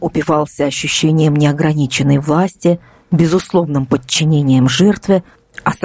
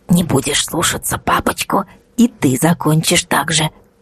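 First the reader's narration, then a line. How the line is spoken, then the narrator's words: Insinuating, gloating whisper. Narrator (Russian): вкрадчиво прошептал палач, наслаждаясь только что пережитым маленьким триумфом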